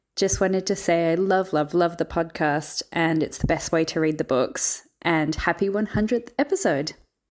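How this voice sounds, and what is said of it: Australian accent. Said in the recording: “from Australia. Yes. Yes, love the accent.”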